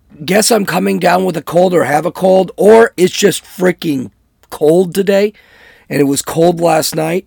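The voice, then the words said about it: Hoarse, froggy voice. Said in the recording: “I've got a little bit of a frog in my throat. I sound kind of hoarsey.”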